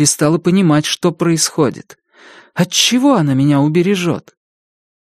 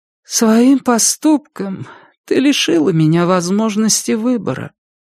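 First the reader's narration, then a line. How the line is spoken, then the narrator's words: Sad. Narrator (Russian): печально сказала она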